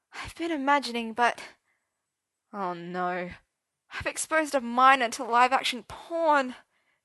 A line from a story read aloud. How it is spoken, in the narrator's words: Merlin moaned